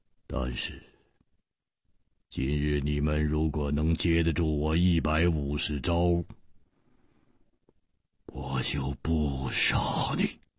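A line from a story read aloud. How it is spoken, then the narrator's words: Cold, murderous. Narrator (Chinese): 他的目中忽然射出了一股杀机，冷冷地说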